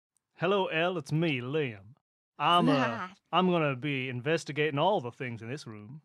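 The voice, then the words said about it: Put-on fake accent character voice. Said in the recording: “This is my Liam voice... Put on a fake accent”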